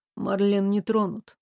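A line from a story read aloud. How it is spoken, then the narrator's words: Sad. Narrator (Russian): грустно сказала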